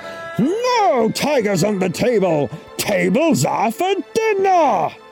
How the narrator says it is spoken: Chen roared

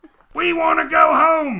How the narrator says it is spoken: they shouted to Columbus

